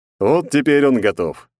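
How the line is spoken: Amused snort. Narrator (Russian): хмыкнул он

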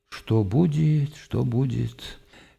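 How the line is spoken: Anguished mutter. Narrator (Russian): Он с тоской пробормотал

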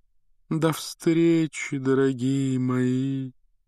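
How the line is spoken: Sepulchral breathy voice. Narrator (Russian): за могильным голосом выдохнула Трелони

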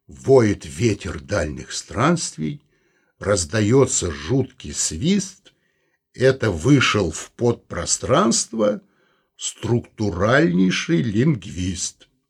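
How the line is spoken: Sung in chest voice. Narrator (Russian): Вадим грудным голосом пропел

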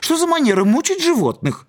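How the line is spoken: Parrot screeching. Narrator (Russian): Попугай заорал

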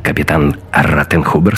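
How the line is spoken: Clipped, curt. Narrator (Russian): сказал Гитлер отрывисто

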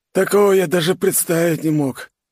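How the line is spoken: Sad, upset. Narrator (Russian): грустно произнес комбат, расстроенно

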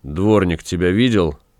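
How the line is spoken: Gloomy. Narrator (Russian): мрачно спросил Гай

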